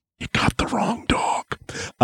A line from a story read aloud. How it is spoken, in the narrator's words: I would whisper gently in his ear